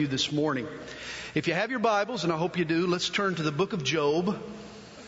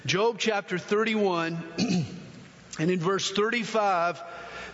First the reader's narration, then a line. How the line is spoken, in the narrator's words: Job cries out